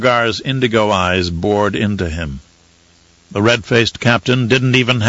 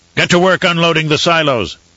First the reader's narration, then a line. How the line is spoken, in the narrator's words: Torok barked